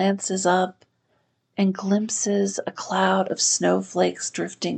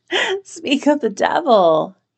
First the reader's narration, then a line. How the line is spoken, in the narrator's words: he cries